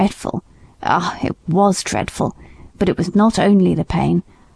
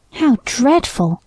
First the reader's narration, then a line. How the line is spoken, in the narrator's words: I exclaimed